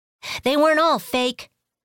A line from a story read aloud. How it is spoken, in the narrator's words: Kiyoshi shouted as she sped away